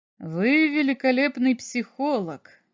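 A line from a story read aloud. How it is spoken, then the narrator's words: Laughing. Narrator (Russian): засмеялся врач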